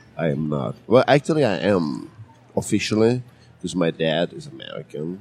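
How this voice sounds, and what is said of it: Foreign accent, German-born speaker. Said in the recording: “That gives you the funky accent ... You sound awesome, like you're all worldly”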